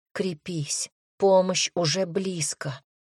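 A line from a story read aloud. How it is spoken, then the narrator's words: Silent inner whisper. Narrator (Russian): мысленно прошептала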